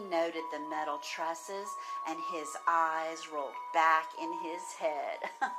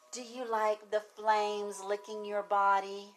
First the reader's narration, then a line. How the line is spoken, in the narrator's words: taunted